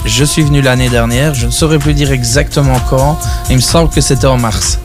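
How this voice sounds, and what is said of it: Regional accent from Herve. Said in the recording (French): “je viens de Herve, pour ceux qui ne l'auraient pas entendu à l'accent”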